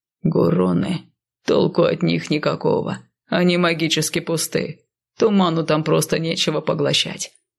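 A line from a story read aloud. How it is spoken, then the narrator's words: Quiet muttering. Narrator (Russian): тихо пробормотал Сай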